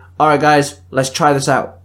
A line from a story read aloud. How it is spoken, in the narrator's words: Indra barked